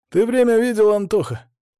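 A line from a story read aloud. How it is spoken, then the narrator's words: Exhaled. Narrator (Russian): Я выдохнул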